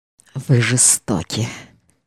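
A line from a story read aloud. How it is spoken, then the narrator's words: Strained, composed mumble. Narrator (Russian): Овладев собой еще раз, он пробормотал с вымученной улыбкой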